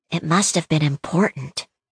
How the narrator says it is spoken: Clementine said, careful to keep her voice down

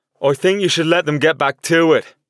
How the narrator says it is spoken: I hollered to Sean

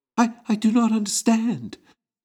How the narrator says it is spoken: Concordia tearfully replied

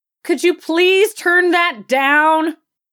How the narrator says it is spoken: bellowed out

